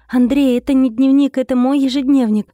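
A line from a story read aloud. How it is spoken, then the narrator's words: Exclamation. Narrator (Russian): воскликнула она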